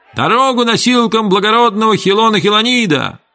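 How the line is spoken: Slaves shouting. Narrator (Russian): рабы в желтых туниках опять закричали

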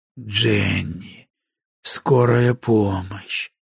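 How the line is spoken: Slurred, strained speech. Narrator (Russian): выдавил я заплетающимся языком

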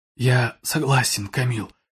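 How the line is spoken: Whisper. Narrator (Russian): прошептал Шейд

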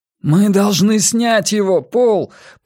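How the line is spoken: Beast shouting. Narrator (Russian): прокричал зверюга

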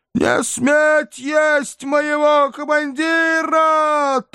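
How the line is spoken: Thin howl. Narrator (Russian): тонко взвыл бесполезный вахмистр

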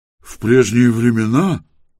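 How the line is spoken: Disapproving grumble. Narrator (Russian): осуждающе пробурчал третий

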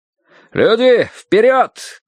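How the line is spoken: Shout. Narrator (Russian): крикнул кто-то

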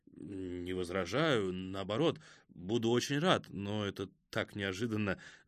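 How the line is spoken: Flustered mumbling. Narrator (Russian): забормотал ксенопсихолог

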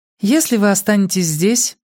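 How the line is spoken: Calm. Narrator (Russian): спокойно продолжала она

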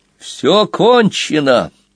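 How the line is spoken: Shouting. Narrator (Russian): крикнул он удрученному зайцу

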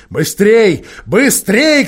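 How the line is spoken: Witch shouting. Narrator (Russian): кричала колдунья

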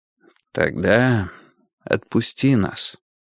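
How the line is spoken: Quiet. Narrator (Russian): тихо сказал Гурский

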